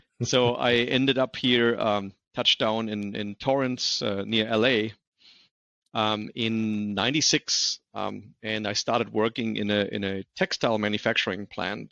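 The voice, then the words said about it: Slight German accent. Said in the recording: “I have a little bit of an accent. I come from Germany.”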